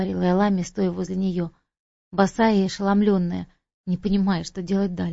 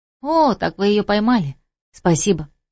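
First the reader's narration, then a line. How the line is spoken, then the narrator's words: Bright smiling exclamation. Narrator (Russian): воскликнула она, широко улыбаясь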